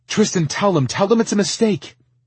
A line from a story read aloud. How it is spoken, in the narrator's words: she begged